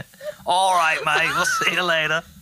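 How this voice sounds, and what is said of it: Put-on Australian accent. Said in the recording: “Why are you doing an Australian accent? ... I can do Australian pretty good ... that's pretty good”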